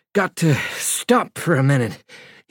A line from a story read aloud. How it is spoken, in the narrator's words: said breathlessly